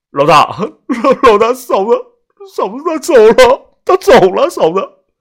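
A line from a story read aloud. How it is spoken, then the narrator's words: Choked sobbing. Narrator (Chinese): 小虎他哭着哽咽了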